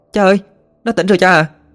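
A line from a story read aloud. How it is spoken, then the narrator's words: Excited shout. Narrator (Vietnamese): Ina thấy Tuấn tỉnh dậy thì hét lên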